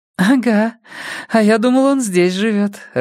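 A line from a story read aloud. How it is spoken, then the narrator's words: Laughing. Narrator (Russian): рассмеялась Майя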